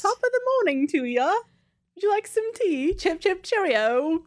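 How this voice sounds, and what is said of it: Bad put-on British accent. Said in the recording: “my British accent is horrible. It's so bad.”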